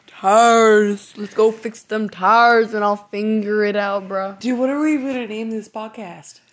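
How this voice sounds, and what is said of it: Southern American accent from Virginia. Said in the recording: “make fun of my accent sometimes ... I have a southern accent from Virginia”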